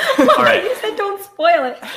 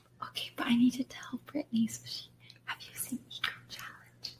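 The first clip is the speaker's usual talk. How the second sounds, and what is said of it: Whispering. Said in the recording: “whisper”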